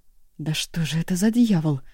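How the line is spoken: Muttering. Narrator (Russian): пробормотала Янса

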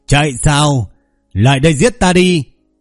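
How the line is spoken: Manic loud laughter. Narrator (Vietnamese): Chu Chấn có chút điên cuồng cười to

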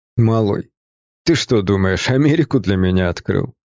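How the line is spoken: Snort. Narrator (Russian): Он фыркнул

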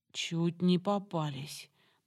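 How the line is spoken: Trembling voice. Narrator (Russian): дрожащим голосом озвучила Самара

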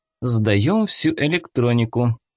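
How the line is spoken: Cold command. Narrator (Russian): холодно приказала она

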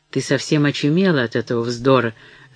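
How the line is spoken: Grumbling. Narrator (Russian): заворчал он на нее

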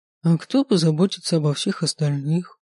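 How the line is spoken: Sad. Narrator (Russian): И сказано это было так печально

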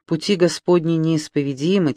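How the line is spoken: Quiet. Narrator (Russian): тихо сказал господин Винсан

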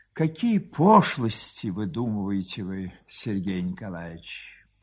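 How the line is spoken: Sad wife. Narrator (Russian): жена грустно проговорила

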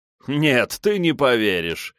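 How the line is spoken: Laughing. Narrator (Russian): рассмеялся герцог

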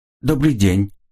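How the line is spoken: Calm clear voice. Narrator (Russian): сказала девушка спокойным чистым голосом

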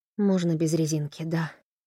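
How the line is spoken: Breathy whisper. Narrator (Russian): выдохнула Тесса ему в губы

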